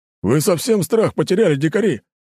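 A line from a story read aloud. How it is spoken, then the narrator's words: Sudden angry bark. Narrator (Russian): Моментально растеряв напускное веселье, рявкнул дружинник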